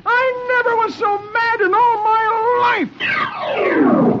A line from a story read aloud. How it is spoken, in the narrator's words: he screeches